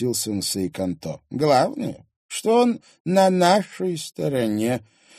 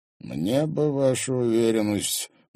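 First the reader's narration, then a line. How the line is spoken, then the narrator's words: Gloomy remark. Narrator (Russian): мрачно заметил Марат Закревский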